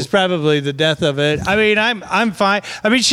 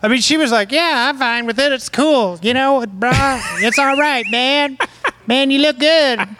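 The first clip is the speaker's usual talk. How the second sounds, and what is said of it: Exaggerated impression of his wife. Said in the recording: “Your impression of your wife sounds like Howard Stern's impression of a black person.”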